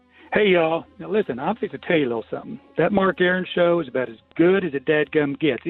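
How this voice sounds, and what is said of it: Southern US accent. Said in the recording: “let's hear that Southern accent”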